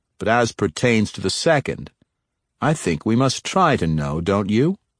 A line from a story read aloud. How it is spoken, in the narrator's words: Gamoriel replied